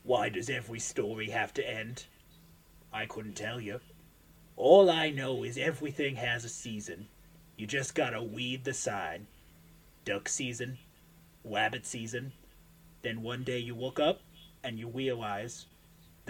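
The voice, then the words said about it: Elmer Fudd cartoon voice. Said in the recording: “I'm going to do it in an Elmer Fudd voice”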